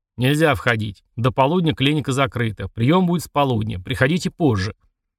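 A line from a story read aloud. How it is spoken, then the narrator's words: Stern. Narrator (Russian): Один из них строго сказал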